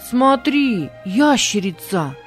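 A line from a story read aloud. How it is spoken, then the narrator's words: Shouted. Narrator (Russian): крикнул Бинони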